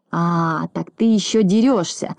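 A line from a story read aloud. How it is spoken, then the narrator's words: Hoarse wheeze. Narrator (Russian): захрипел Знайка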